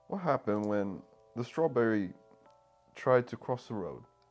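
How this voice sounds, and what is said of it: Put-on British accent. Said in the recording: “I don't know what accent you're doing, but it sounds British. ... It was British.”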